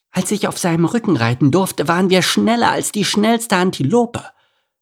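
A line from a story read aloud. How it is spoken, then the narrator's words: Excited call. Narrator (German): rief Leila begeistert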